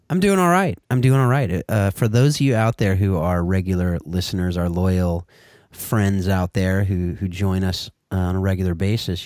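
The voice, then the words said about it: Noticeably altered, sultry-sounding voice. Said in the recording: “you'll notice that my voice is a little different here today... I believe the word he used was sultry”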